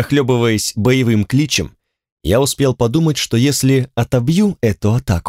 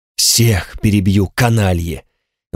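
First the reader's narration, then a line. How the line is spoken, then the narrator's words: Breathed out. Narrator (Russian): выдохнул я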